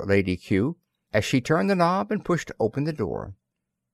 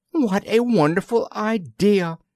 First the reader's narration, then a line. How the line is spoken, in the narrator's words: exclaimed Lady Kew